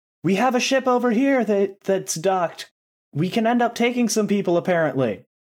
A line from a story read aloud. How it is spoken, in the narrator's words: you can hear one of the people shout down